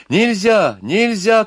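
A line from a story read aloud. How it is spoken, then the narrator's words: Shouting. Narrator (Russian): кричала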